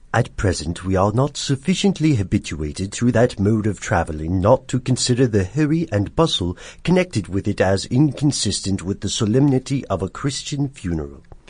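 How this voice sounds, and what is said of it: Put-on accent reading a quote. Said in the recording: “Okay, I'm going to go for an accent.”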